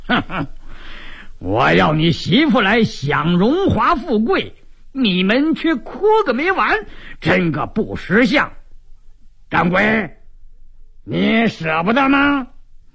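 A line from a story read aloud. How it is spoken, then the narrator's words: Cold sneering laugh. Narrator (Chinese): 鲁斋郎冷笑一声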